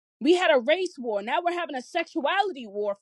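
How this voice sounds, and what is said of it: Yelling passionately. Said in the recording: “I'm yelling right now ... I'm a passionate speaker”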